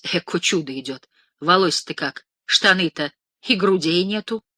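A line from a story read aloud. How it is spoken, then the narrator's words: Old women whispering. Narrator (Russian): Старухи шептались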